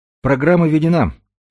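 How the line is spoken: Cheerful pilot's warning. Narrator (Russian): весело предупредил пилот

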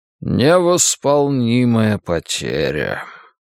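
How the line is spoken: Sighing. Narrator (Russian): кардинал вздохнул

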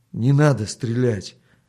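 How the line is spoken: Trembling plea. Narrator (Russian): дрогнувшим голосом попросил он еще раз

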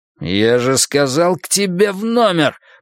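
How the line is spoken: Growl. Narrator (Russian): прорычал Кёртис

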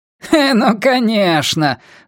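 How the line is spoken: Woman laughing loudly. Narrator (Russian): захохотала женщина

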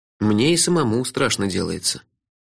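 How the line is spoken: Grim agreement. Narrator (Russian): мрачно согласился я

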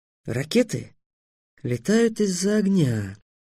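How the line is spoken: Thoughtful. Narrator (Russian): задумчиво сказал Трикс

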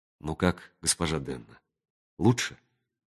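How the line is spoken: Whispered. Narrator (Russian): прошептал он

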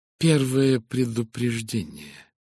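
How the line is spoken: Gentle explanation. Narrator (Russian): пояснил он уже мягко

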